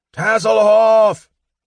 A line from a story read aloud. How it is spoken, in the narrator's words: Flint screamed